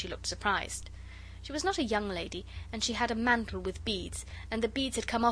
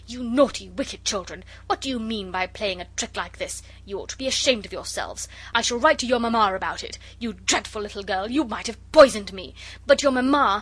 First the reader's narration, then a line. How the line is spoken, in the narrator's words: she got up in a very great hurry and said